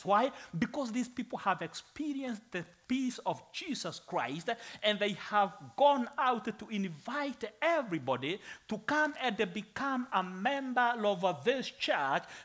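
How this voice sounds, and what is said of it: Foreign accent in English. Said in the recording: “Yes, I'm a foreigner, that's true. ... I feel comfortable even when I speak with this accent.”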